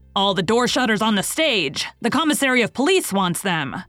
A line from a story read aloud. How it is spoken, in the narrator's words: Someone above them shouted